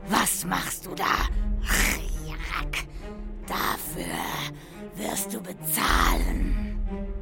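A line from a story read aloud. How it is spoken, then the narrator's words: Hissed. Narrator (German): zischte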